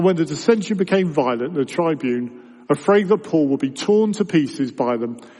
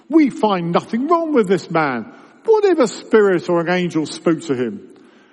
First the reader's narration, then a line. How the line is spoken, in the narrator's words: scribes stood up and contended sharply